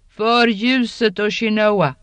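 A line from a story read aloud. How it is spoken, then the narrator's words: Triumphant cry. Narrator (Swedish): Inktras triumferande rop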